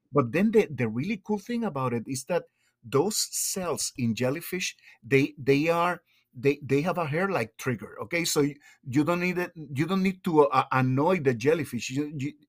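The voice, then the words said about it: Thick foreign accent. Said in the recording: “get enthusiastic and my accent gets thicker”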